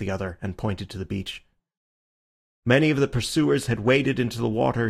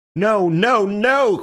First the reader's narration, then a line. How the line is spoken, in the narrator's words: cried Syme in a kind of frenzy